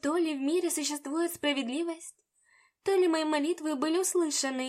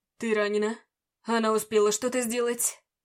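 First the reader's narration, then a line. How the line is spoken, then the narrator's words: Fierce growl. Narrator (Russian): прорычал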